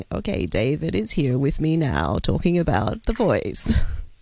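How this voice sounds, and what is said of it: Creaky low-pitched vocal fry. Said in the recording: “if I spoke in vocal fry ... vocal fry ... it's basically what we call creaky phonation ... it becomes low-pitched and raspy at the end”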